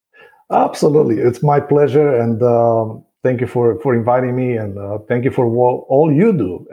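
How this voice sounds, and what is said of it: Speaks with a noticeable accent. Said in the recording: “i hope uh, your audience bear with my accent”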